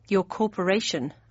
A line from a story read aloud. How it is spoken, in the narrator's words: I muttered